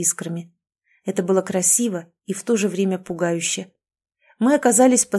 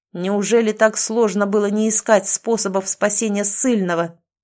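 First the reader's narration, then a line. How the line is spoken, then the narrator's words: Thunderous menacing voice. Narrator (Russian): Прогремел его голос не предвещая ничего хорошего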